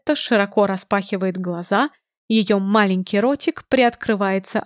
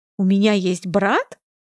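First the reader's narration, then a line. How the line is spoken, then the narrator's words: Confused question. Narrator (Russian): растерянно спрашивает она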